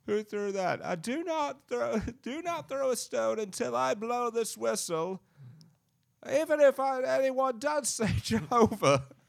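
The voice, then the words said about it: Fake character voice. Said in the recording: “Do a fake voice.”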